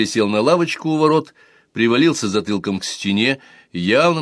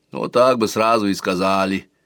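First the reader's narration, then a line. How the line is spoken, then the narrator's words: Grumbling young man. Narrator (Russian): проворчал детинушка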